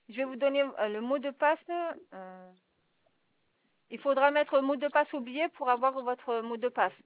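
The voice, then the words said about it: Strong foreign accent. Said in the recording (French): “Vous avez un fort accent.”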